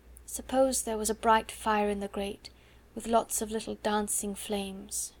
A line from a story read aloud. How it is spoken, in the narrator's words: murmured